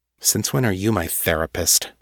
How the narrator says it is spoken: She muttered

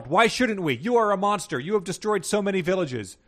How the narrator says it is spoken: Princess Trina yelled

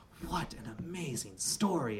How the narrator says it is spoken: I breathed

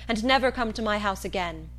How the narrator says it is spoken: she exclaimed

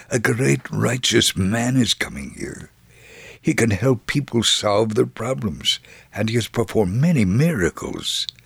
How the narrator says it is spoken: someone cautiously whispered

